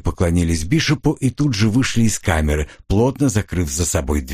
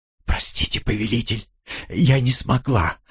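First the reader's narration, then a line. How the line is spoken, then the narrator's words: Tearful whisper. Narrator (Russian): прошептала Элли, и я увидел в ее глазах слезы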